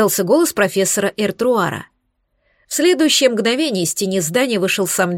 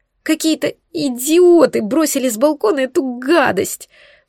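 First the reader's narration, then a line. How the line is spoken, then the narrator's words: Sobbing. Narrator (Russian): всхлипывала Лара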